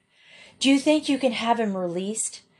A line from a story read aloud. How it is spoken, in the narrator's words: the boy asked eagerly